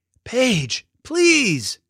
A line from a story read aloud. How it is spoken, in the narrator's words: yelled Finn